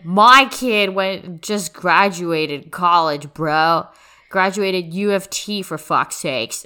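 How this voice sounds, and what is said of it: Put-on bro-ish 'Chad' accent. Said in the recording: “I don't know why my family sounds like Chadley ... I can only do the Brad Chad accent.”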